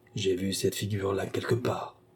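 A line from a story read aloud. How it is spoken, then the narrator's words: Said quietly. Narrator (French): dit tout bas le maréchal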